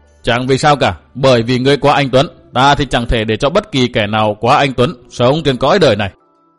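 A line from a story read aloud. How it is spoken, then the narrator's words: Cold speech. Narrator (Vietnamese): Phác Lập Nhân lạnh lùng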